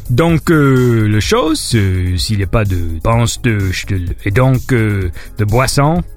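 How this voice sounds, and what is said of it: Mumbled fake French accent. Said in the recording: “That's my fake French ... That's my French impression. ... a Frenchman who's like smashed his head against a wall and has forgotten who he is”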